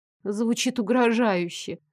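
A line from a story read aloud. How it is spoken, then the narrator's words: Strained, weary. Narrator (Russian): С измученной улыбкой выдавила я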